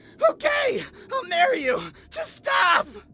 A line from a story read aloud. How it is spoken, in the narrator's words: I screamed